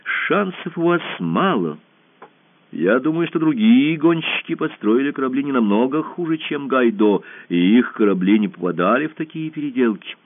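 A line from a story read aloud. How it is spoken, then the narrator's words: Serious. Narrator (Russian): Ирия сказала серьезно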